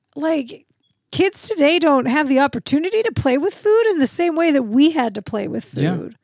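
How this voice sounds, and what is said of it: Old grandma voice. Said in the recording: “let me get my old grandma voice going”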